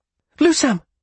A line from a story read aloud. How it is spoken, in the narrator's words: She cried out